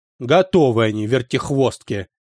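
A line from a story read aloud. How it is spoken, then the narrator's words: Grumbled. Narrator (Russian): проворчал папа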